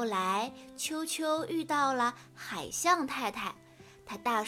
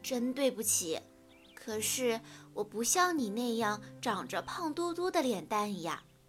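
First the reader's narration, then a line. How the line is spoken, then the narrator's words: Sighing. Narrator (Chinese): 企鹅太太叹了一口气说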